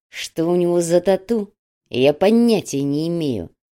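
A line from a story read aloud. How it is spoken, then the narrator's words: Through gritted teeth. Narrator (Russian): сквозь зубы ответил Солома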